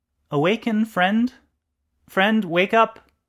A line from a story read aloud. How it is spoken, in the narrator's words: in soft but loudening tones, called out to the sleeping person